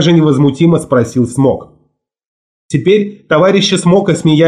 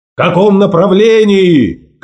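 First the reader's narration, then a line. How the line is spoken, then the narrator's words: Shout. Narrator (Russian): крикнул ему Волк Ларсон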